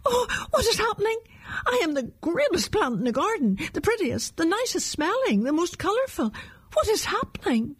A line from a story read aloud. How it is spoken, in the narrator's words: As the plant began to fall, it cried out